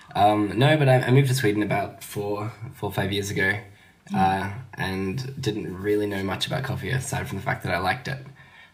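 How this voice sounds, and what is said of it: Australian accent. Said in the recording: “I detect a slightly different accent ... I'm Australian. I can't hide that much.”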